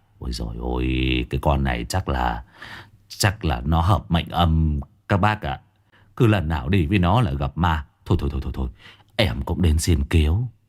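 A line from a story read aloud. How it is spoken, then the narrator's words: Sighing. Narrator (Vietnamese): Con Trang thì thở dài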